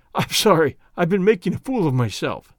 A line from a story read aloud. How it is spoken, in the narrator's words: gasped